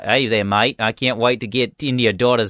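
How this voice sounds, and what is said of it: Mock Australian accent. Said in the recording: “crazy accent ... I thought he was Australian ... sometimes he sounds like he's like”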